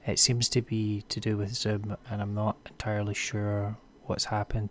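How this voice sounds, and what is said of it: Voice sounds much deeper. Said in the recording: “something strange has happened to my voice during recording ... my voice sounds a lot deeper ... my voice sounds very different”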